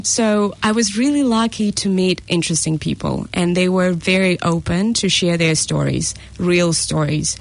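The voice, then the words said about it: Russian accent. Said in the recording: “I'm originally from Russia, as you can hear a weird accent maybe”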